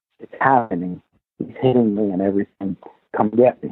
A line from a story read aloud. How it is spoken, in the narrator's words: she's whispering into the phone, and she says